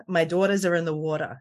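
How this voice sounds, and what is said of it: Put-on New Jersey accent. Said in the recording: “I should get my Jersey accent prepared for this entire rewatch series. The way that I get there is by saying two words, daughter and water.”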